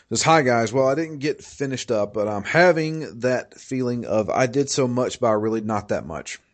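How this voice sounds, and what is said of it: Strained voice, going out. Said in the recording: “my voice is actually going out”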